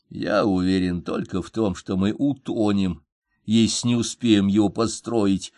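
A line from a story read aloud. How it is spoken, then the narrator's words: Plain. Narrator (Russian): ответил Феликс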